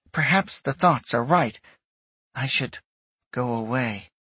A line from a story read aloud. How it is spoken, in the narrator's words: Odysseus said, his tone suddenly soft